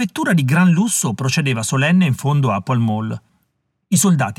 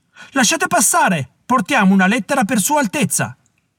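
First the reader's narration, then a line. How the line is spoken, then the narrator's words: Feathered herald shouting. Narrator (Italian): gridava il loro battitore pennuto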